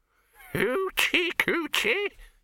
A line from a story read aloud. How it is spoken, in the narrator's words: he cackled